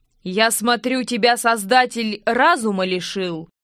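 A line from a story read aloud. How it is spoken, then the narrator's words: Loud question. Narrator (Russian): громко спросил воровской король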